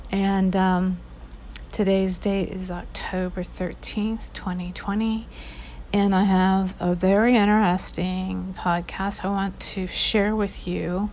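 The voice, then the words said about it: Hoarse, husky throat. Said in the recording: “I have a frog in my throat.”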